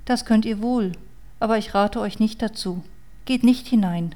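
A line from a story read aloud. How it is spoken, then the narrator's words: Girl's sad voice. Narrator (German): sagte das Mädchen mit trauriger Stimme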